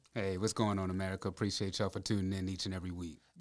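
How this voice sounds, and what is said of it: Smooth radio-announcer voice. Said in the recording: “I'm tired of you and that radio voice.”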